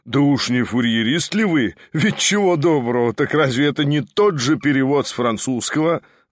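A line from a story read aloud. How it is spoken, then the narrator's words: Laughing. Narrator (Russian): засмеялся он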